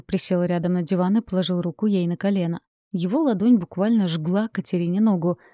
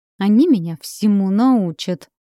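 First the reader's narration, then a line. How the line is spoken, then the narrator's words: Through gritted teeth. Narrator (Russian): сквозь зубы процедила Катя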